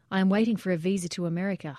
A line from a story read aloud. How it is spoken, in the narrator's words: Haitham said